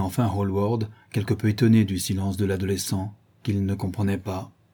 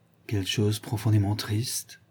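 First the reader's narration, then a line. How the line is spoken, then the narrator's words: Murmured. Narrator (French): murmurait Dorian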